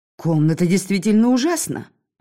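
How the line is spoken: Exclaiming. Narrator (Russian): воскликнула Лорена

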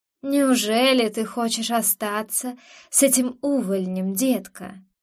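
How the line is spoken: Soft smiling purr. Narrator (Russian): Мягко промурлыкал он, с улыбкой

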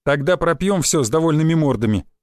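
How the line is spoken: Wry snort. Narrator (Russian): хмыкнул я

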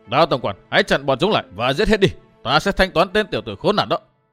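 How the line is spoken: Loud shout. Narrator (Vietnamese): Khu Phương Anh quát lớn

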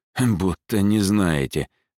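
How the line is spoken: Snorting. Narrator (Russian): хмыкнул Роберт

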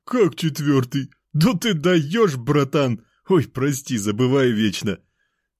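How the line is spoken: Fat man laughing. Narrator (Russian): Толстяк смеялся

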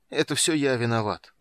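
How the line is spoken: Dejected, groaning with nausea. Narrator (Russian): уныло сказал и застонал, когда вновь подкатила волна тошноты

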